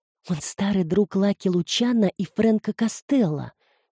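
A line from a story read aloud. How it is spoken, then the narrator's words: Quiet remark. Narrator (Russian): тихо заметила Филомена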